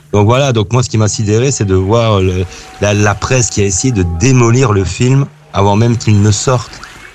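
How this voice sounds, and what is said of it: Belgian French accent. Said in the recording (French): “j'aime bien que t'aies un accent belge ... un accent belge et des prononciations belges”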